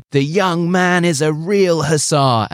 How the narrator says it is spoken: The colonel starts shouting

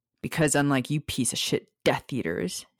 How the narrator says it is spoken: Sirius snarled

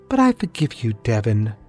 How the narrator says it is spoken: she said in a sweet, melodic tone

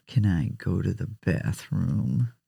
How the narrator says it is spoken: A student mumbled

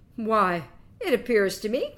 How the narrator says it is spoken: cried Quicksilver

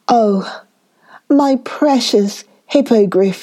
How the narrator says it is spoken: cried

